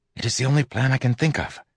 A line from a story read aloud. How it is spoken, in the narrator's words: I whispered back